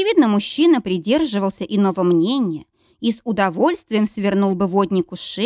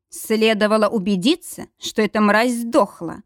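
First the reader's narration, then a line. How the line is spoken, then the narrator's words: Growl after long silence. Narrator (Russian): прорычал после долгого молчания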